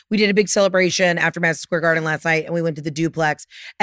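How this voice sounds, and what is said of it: Raspy, hoarse voice. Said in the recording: “I'm a little raspy today... I can't even talk.”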